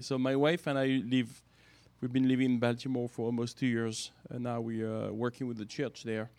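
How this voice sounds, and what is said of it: Slight French accent. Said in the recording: “a slight French accent ... I'm French”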